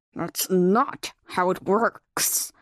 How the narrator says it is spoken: he growled at her obvious ignorance

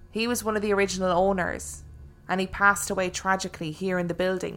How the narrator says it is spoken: said

